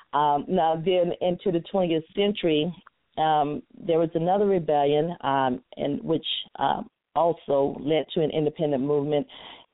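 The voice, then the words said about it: Country accent. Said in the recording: “my country accent”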